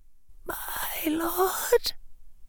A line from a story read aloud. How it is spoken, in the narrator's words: whispered Bellatrix's voice, soft and very tentative